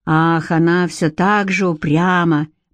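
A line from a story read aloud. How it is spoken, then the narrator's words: Gloomy remark. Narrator (Russian): мрачно заметил Ансельм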